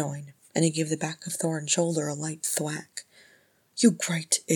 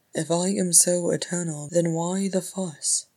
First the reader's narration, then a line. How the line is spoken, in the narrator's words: Oin sighed loudly